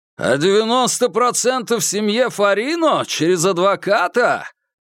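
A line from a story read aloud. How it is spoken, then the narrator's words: Shouting. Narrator (Russian): прокричал Курц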